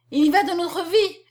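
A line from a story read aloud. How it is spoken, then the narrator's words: Exclaimed. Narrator (French): s'écria-t-elle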